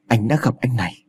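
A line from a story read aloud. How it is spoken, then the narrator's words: Stunned, very soft. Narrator (Vietnamese): Phong lặng người đi một lúc rồi đáp thật khẽ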